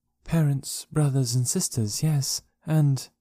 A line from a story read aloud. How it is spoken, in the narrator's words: she added in a low, thoughtful tone